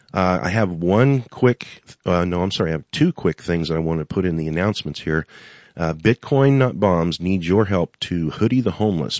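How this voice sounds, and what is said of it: Sick, congested voice. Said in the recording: “Please excuse my voice. As you can hear, I've been fighting with this cold now for 4 or 5 days”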